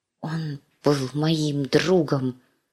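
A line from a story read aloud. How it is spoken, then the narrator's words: Whisper into plate. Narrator (Russian): шептала Ария в тарелку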